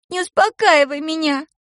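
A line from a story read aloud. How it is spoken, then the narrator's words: Sobbing. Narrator (Russian): прорыдала она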